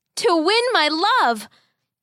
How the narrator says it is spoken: the boy shouted back

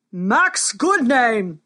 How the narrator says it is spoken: thundered the king

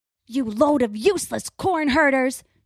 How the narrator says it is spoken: Crow bellows

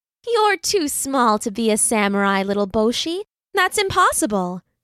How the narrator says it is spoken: his mother said

